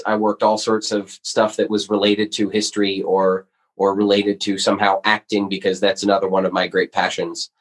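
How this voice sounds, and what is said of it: American accent. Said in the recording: “I still have a very American aspect to it ... I can't shake this accent no matter how hard I try.”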